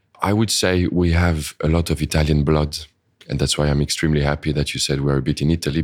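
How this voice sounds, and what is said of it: French accent. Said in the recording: “you hear my French accent. I cannot change that.”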